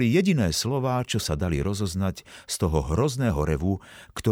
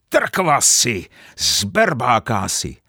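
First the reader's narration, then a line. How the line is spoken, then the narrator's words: Shouting. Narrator (Slovak): zakričal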